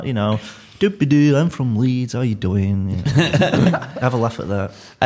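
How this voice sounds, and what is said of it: Leeds accent. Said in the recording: “Leeds accent ... people really seem to get a kick out of my accent.”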